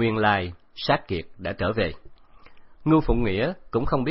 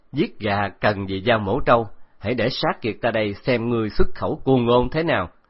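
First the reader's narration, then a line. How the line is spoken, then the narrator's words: Loud laughing reply. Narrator (Vietnamese): cười lớn đáp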